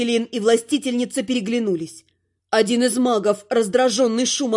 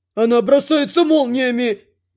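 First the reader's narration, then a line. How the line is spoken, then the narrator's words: Victim wailing. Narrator (Russian): взвыла очередная жертва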